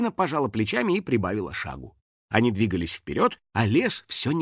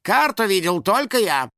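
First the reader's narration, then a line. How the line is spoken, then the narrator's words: Snapped. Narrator (Russian): огрызнулся Финик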